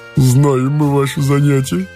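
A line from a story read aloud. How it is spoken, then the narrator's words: Squealing laughter. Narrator (Russian): Петерсон и засмеялся, точно завизжал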